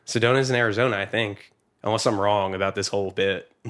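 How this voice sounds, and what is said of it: Put-on Minnesota-style accent. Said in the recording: “you're doing an accent like you were from, like, the fucking, like... Minnesota or something?”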